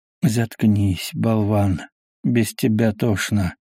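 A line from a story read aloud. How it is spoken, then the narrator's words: Weary, dismissive. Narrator (Russian): устало отмахнулся капитан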